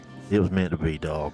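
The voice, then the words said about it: Imitates another person's voice. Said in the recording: “Very good Richard Clark impression there, too, as you always do.”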